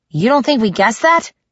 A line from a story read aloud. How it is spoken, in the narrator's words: I snapped